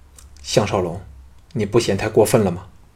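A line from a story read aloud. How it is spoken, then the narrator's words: Frowning, low voice. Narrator (Chinese): 平原夫人皱眉大皱，低声说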